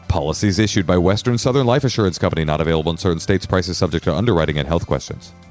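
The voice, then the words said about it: Rapid legal-disclaimer announcer voice. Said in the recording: “do my legal voice”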